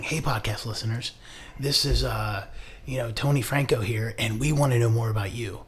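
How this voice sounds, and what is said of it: NPR radio host voice. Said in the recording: “that was my best NPR voice”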